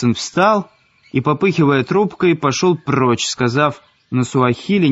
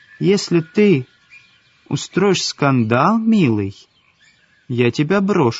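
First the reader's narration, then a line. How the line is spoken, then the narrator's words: Calm. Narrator (Russian): сказала Марго спокойно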